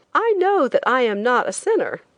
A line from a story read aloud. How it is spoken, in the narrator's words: I laughed hysterically